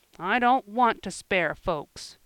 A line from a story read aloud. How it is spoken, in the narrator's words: grumbled Joel, whittling away with energy